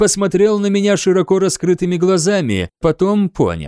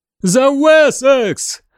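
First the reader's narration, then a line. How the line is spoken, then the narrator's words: Shouting from a wall. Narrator (Russian): прокричал он со стены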